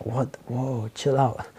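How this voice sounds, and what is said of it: Filipino accent slips out. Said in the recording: “my Filipino accent just came out.”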